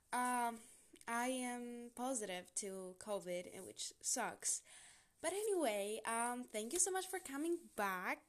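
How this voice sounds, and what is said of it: Sick-sounding voice. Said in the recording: “Excuse my voice. I am sick.”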